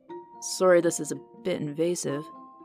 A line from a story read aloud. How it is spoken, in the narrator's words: he mumbled